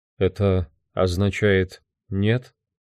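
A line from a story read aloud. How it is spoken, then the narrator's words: Lifeless voice, asking. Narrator (Russian): безжизненным голосом спросил он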